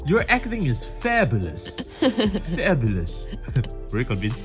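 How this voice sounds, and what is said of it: Put-on accent. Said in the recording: “I don't know why I had to break into the accent.”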